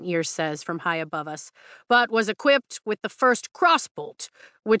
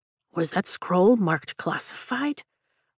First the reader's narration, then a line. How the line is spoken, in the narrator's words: Liam asks under his breath